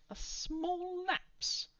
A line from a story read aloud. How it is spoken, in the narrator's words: Other Giles exclaimed